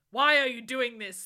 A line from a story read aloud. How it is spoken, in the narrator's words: Lupin said angrily